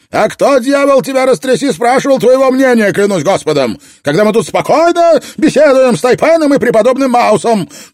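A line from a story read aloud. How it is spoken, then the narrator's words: Shouted reply. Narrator (Russian): крикнул в ответ Мастерсон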